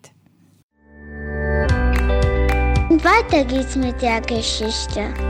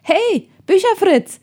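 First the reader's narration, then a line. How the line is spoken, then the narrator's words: Calling out. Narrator (German): rief er Tim zu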